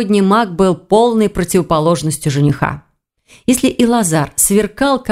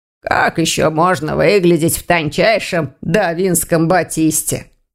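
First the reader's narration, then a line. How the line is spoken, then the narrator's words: Grumbling. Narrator (Russian): проворчал Вардван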